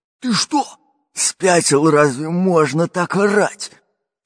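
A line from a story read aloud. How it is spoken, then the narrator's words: Fat pirate's growl. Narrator (Russian): прорычал толстый пират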